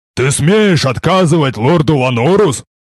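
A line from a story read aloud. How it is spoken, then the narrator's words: Huge man roaring. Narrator (Russian): Взревел огромный детина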